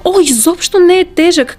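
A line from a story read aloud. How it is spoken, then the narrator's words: Excited. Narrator (Bulgarian): каза развълнувано Дороти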